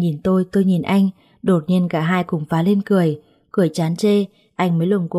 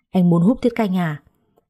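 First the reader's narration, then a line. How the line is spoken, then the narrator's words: Frowning snap. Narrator (Vietnamese): cau mày quát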